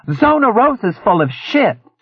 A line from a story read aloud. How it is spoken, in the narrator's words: she bellowed